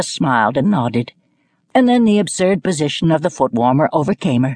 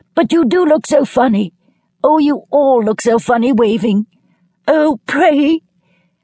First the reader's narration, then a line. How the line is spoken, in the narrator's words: And laughing helplessly